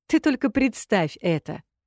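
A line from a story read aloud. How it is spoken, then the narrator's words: Giggling. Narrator (Russian): хихикает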